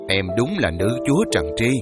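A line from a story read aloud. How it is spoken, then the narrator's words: Teacher laughing. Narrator (Vietnamese): cô giáo tôi bật cười bảo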